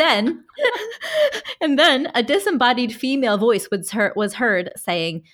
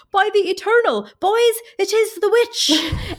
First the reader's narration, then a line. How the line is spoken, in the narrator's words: After trying to get the wagon going for some time, exclaimed